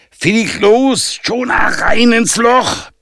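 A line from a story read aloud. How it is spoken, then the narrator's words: Loud bellow. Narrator (German): brüllte Yannick ziemlich laut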